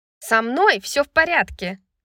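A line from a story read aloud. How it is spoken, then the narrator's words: Shouted. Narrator (Russian): крикнула Брайс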